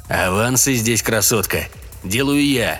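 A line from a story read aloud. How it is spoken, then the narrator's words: Rude declaration. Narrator (Russian): грубо заявил он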